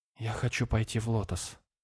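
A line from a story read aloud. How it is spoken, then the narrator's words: Quiet. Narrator (Russian): тихо сказала ты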